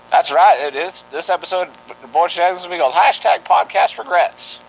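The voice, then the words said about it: 1940s radio announcer voice. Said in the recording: “using a 1940s radio announcer voice”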